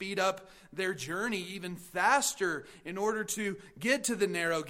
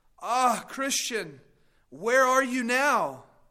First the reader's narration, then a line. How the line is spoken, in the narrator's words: Pliable exclaimed